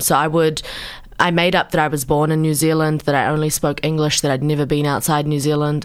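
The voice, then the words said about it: Strong New Zealand accent. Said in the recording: “you have a really strong Kiwi accent”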